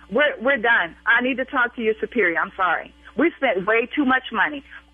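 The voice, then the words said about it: Raised, angry shouting voice. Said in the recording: “I will continue to raise my voice ... you're yelling at me”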